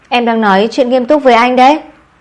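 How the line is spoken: Flustered, angry. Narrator (Vietnamese): Lâm Sơ thấy buồn cười, trên mặt hơi nóng lên, cô tức giận nói

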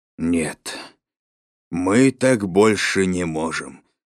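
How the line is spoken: Exhaled, weary. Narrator (Russian): выдохнул дядя Валя

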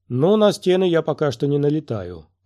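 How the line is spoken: Grumbling. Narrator (Russian): проворчала Талла

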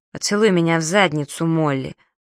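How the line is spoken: Gloomy mysterious low voice. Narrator (Russian): мрачно своим таинственным низким голосом сказала Старла

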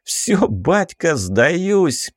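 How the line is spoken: Laughing shout. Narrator (Russian): смеясь крикнул он

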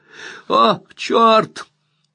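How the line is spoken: Disgusted shriek, half laughing. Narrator (Russian): Взвизгнул Тони с омерзением и все еще почти смеясь

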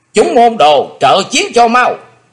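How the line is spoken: Loud shout. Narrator (Vietnamese): Lạc Bá Đào quát lớn

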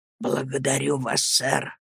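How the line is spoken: Whispered. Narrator (Russian): прошептал он

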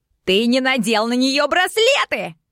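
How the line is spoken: Furious yelling. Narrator (Russian): Как же орал герцог

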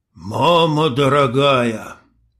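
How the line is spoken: Strained, forced out. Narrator (Russian): выдавил индеец

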